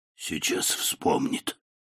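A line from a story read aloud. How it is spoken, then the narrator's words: Whisper. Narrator (Russian): прошептал мистер Парсли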